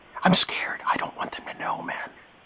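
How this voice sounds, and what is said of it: Whispering. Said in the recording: “I'm whispering. ... I'm whispering.”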